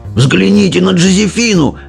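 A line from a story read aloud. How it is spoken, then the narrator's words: Old man shouting. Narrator (Russian): кричал дедушка Джо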